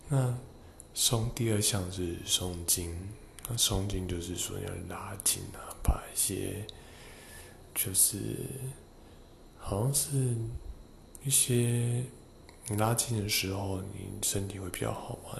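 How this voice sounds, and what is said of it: Quiet, hushed speaking voice. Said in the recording (Chinese): “我太晚不敢说太大声了，所以声音不知道会不会。会很小声。”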